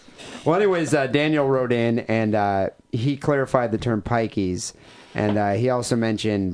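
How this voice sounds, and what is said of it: Usual voice. Nothing is said of it.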